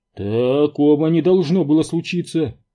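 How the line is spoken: Groan. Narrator (Russian): простонал водитель

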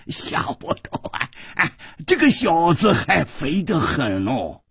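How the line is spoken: Laughing loudly. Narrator (Chinese): 老严大笑着说

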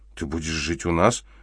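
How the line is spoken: Uncertain. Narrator (Russian): неуверенно произнесла Элла

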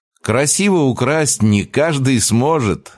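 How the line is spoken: Laughing. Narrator (Russian): рассмеялся

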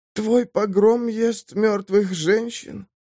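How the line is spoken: Rasping. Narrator (Russian): прохрипела Самар

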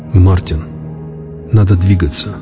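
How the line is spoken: Quiet but firm. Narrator (Russian): тихо, но твердо проговорил я

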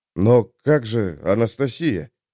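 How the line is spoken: Confused mumbling. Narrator (Russian): растерянно забормотал Олег

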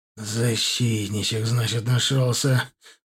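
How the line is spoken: Menacing drawl through teeth. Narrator (Russian): угрожающе протянул сквозь зубы

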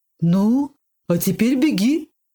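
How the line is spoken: Baker woman exclaiming. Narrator (Russian): воскликнула хозяйка булочной

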